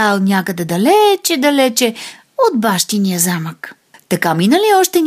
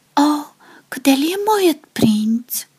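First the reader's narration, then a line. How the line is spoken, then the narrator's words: Sighing. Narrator (Bulgarian): отново въздъхнала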